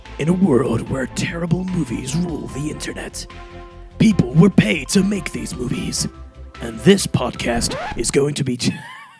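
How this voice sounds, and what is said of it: Movie trailer announcer voice. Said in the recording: “Sorry, I cannot do that voice.”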